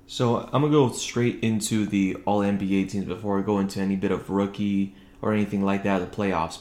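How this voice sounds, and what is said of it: Low, quiet speaking voice. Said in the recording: “if my voice sounds a little bit low right now ... trying to keep it quiet for this podcast”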